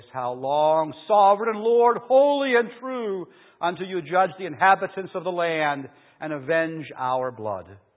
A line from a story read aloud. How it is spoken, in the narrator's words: they called out in a loud voice